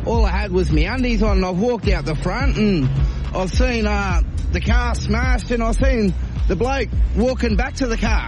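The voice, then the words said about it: Put-on Australian accent. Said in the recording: “in an Australian accent.”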